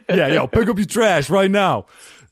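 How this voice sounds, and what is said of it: Put-on rude New Jersey accent. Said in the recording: “the accent I feel makes it more douchey. Yeah. Sorry, I'm so sorry to all of our New Jersey audience.”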